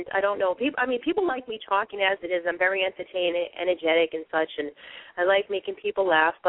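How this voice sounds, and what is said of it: Boston accent. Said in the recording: “I have a Bostonian accent ... maybe it's hard for me to pronounce the letters correctly”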